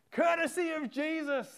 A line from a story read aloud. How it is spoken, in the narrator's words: he said, he yelled it